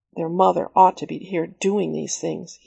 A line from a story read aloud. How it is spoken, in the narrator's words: muttered to himself